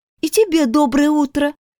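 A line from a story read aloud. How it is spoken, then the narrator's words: Unenthusiastic, chilly reply. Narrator (Russian): Не слишком бодро отозвалась я, чувствуя себя все еще немного озябшей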